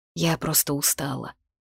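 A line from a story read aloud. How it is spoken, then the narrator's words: Quiet reply. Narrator (Russian): отозвалась негромко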